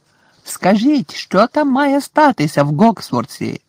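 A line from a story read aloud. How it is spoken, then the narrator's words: Shouting from a window. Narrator (Ukrainian): закричав з вікна Фред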